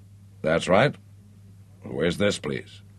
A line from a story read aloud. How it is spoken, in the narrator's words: His voice was so clear and strong, although the Atlantic Ocean separated them